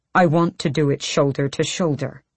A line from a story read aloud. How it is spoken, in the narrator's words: he snarled